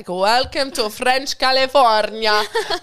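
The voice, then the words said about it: Bad French accent, sounds Italian. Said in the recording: “I'm sure that was the worst accent ever... it's like I'm in Italian... That was so Italian... I can't do French”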